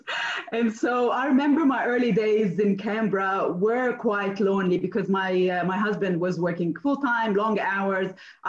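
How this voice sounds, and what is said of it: Slight American accent. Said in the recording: “I had this bit of an American accent, which didn't leave me till today”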